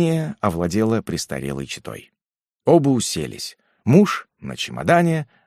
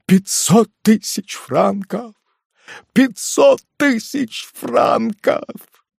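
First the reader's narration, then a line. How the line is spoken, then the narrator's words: Despairing broken voice. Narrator (Russian): Шербанель в припадке внезапного отчаяния повторяя разбитым голосом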